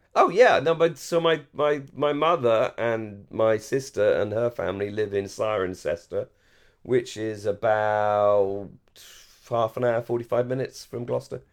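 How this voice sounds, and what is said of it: English received pronunciation, posh accent. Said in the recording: “I'm received pronunciation. I haven't got an accent at all ... generic posh ... Educated posh English ... Generic posh voice ... BBC English”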